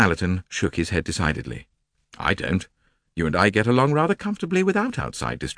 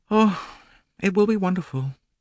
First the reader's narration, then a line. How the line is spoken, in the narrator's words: she gasped